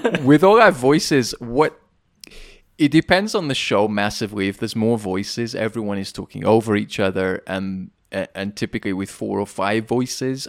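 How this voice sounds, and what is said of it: British accent. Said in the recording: “anything you say with a British accent sounds sophisticated ... I'm a lot more stupid than my accent suggests”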